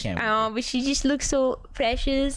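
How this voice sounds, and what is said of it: Baby voice. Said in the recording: “I'm doing my little baby voice ... baby voices”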